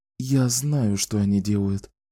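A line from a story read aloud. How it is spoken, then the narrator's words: Whispering. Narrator (Russian): прошептала Клариса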